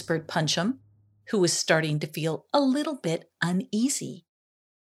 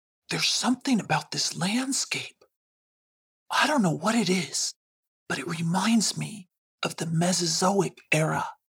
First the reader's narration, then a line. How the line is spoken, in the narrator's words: he whispered to Kick'em